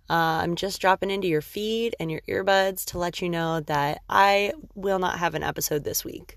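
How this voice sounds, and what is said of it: Tired, exhausted-sounding voice. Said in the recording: “my voice may sound a little different from lack of sleep and just normal exhaustion”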